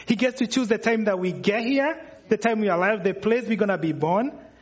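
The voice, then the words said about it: Kenyan accent. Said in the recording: “for those of you wondering where the accent's coming from, I'm from Kenya”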